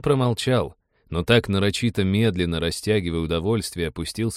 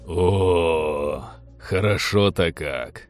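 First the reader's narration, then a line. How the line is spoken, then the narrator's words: Blissful tearful drawl. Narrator (Russian): Блаженно, чуть ли не со слезой, протянул Теодор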